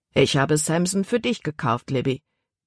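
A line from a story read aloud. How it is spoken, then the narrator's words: Plain. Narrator (German): sagte der Kapitän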